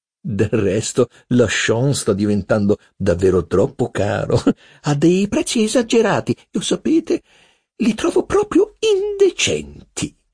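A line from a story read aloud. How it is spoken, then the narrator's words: Laughing. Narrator (Italian): concludeva ridendo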